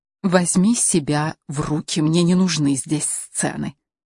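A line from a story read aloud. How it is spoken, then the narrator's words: Whispered. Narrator (Russian): шепотом сказала Каролине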